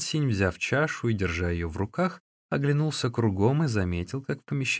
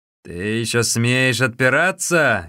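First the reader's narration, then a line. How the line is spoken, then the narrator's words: Exclaimed with loud laughter. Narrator (Russian): громко смеясь воскликнул Хуасинь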